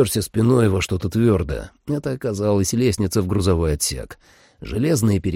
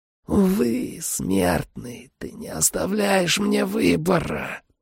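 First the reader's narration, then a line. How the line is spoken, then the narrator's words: Vampire hissing. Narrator (Russian): прошипел вампир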